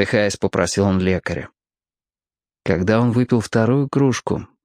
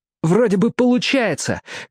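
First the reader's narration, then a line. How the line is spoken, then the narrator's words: Shouting over patient's screams. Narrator (Russian): крикнул Роб, чтобы Мерлин мог расслышать его сквозь несмолкающие вопли больного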